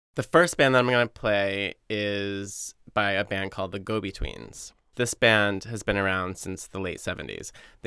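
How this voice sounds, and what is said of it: Boston accent. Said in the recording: “I feel like my Boston accent comes out sometimes.”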